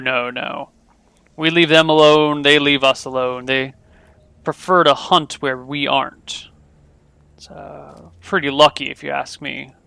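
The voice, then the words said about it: Deep voice of heavy-set man. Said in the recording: “This is a heavy-set man with a deep voice.”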